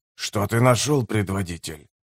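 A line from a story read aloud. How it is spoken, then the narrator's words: Whispered question. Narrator (Russian): шепотом спросил Делум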